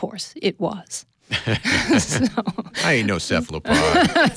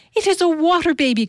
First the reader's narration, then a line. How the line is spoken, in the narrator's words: cried Ellie